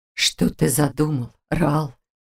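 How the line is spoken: Hoarse drawl. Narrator (Russian): осипшим голосом протянул Всевышний

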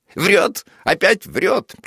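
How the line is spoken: Squealing interruption. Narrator (Russian): прерывает с каким-то визгом Булкин

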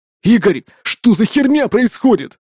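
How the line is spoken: Sudden bark. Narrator (Russian): сходу рявкнул он

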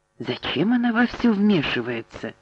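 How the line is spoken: Mumbled. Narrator (Russian): пробормотала Кейт

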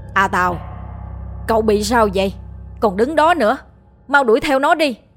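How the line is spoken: Loud shout. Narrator (Vietnamese): Ông Sùng hét lớn

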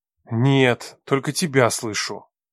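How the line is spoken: Irritated reply. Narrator (Russian): раздраженно ответил Макар

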